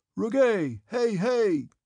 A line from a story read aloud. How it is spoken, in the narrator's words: he shouted